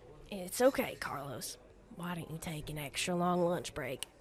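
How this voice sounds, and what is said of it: American southern accent. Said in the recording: “this southern accent”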